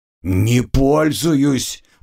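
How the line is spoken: Curt grumble. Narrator (Russian): буркнул тот, желая прекратить ненужные разговоры

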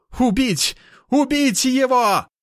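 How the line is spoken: Panicked shouting. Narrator (Russian): кричал богоподобный, в чьем голосе я чувствую панику

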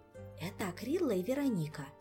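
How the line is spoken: Whispered explanation. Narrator (Russian): шепотом пояснил Мафей

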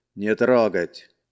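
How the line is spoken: Stern commander's warning. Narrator (Russian): грозно предупредил командир

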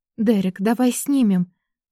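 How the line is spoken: Overwhelmed babbling. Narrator (Russian): пролепетала, не в силах бороться с собой, с овладевшими чувствами

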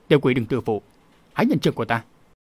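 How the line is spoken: Shouted. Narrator (Vietnamese): Thạch Chấn lại quát

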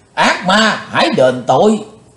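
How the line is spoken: Loud shout. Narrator (Vietnamese): Trường Mộng Giả Tiên dục quát lớn

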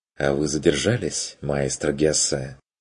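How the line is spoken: Mocking remark. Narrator (Russian): насмешливо заметил голос

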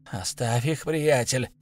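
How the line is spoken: Quiet. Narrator (Russian): сказал Ишибок тихо

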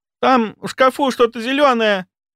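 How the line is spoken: Frightened woman screaming. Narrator (Russian): Испуганно вопила она

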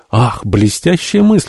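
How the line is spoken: Exclamation. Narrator (Russian): воскликнул Джон

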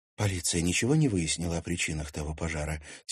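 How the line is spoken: Quiet question, girl. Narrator (Russian): тихо спросила девушка

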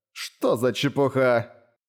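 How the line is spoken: Old woman's muffled laugh. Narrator (Russian): Старуха глухо расхохоталась

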